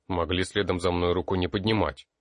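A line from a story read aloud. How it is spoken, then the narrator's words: Sullen snap. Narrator (Russian): угрюмо огрызнулся тот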